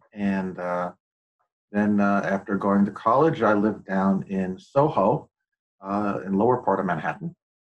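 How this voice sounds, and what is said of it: New York accent. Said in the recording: “as you can tell from my accent, particularly when I talk about coffee, I'm from New York.”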